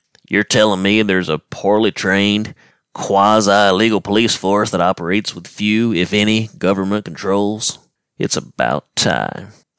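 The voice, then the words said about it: Bad imitation of a cartoon character. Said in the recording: “with apologies for the bad Dale accent.”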